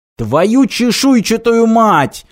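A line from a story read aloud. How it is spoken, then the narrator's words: Yelling. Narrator (Russian): завопил Мартин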